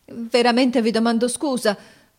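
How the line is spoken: Confused stammering. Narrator (Italian): balbettò confusamente

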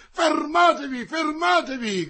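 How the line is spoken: Shouted. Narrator (Italian): gridò colui che avevano chiamato monsignore

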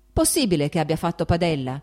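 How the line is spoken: Shouted. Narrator (Italian): gridò Stepan Arkadyc, che non riusciva a vederci per il fumo

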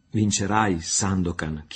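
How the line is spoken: Trembling voice. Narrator (Italian): chiese Marianna con voce che tremava

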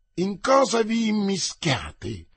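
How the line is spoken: Exclamation pale with anger. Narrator (Italian): esclamò Aramis, pallido dalla collera, nel dubbio che D'Artagnan lo avesse visto con Madame de Longueville

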